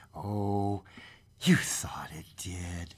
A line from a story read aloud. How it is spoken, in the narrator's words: said the old lady soothingly